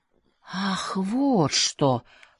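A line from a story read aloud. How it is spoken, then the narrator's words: Drawn-out drawl. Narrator (Russian): протянул он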